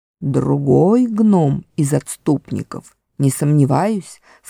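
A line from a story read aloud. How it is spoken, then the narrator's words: Plain. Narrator (Russian): сказал Никабрик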